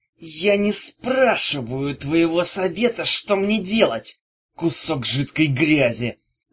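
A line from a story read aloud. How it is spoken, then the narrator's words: Hissing. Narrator (Russian): прошипел Легул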